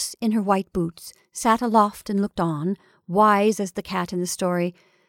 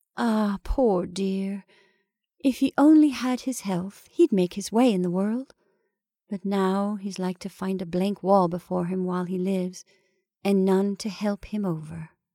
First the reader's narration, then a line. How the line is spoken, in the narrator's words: sighed and said, with a heavy heart